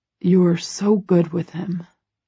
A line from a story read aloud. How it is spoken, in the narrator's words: he murmurs